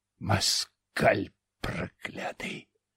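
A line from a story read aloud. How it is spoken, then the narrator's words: Hissing. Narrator (Russian): зашипел Глазов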